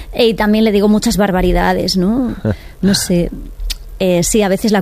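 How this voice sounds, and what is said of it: Usual voice. Nothing is said of it.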